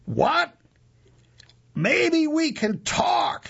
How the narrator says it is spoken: she yells back

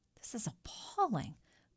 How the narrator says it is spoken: the priest muttered

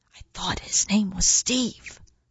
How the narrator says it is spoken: muttered a gravid egg-bearer

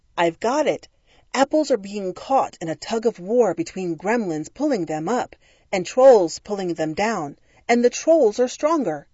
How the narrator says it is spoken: Isaac Newton had watched the apple fall and exclaimed

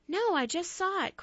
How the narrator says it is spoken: cried Maddie

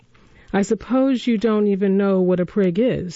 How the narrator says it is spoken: said Dodger mournfully

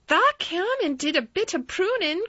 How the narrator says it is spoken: cried Dickon

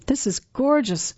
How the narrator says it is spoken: I gasped

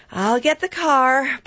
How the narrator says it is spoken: Barbara sighed from the dining room

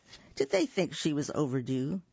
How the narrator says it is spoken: Lisa chuckled

